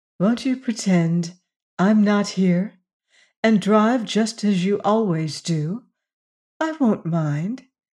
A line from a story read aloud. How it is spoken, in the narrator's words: said